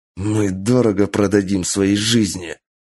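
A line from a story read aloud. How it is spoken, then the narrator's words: Wounded hoarse rasp through teeth. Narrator (Russian): прохрипел сквозь зубы раненый в колено и плечо генерал Кэнджи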